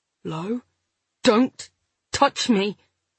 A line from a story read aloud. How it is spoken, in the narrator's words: I said through gritted teeth